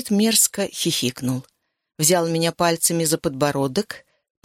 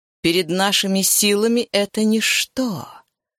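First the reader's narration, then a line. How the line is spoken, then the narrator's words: Offended hiss. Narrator (Russian): прошипел Решая, будто оскорбленный моей нерешительностью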